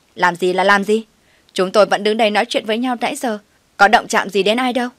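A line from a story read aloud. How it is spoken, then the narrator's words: Haughty arrogant voice. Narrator (Vietnamese): vênh váo, giọng kiều căng nói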